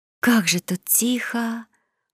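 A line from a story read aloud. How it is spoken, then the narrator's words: Admiring whisper. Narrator (Russian): восхищенно прошептала девушка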